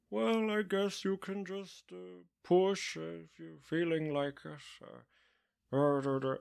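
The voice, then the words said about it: Imitates another person's voice. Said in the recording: “That's my very good Richard Harris impression. ... That is actually old Michael Cera.”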